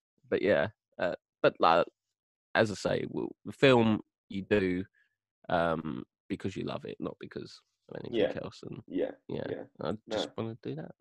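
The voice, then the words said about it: London Cockney-tinged English accent. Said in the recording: “I'm from London, if you haven't guessed my bloody apples and pears accent”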